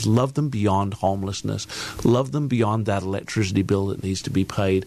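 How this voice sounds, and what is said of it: Slight English accent. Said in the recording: “you might have heard a little bit of an accent. ... I grew up in a real small country town in England”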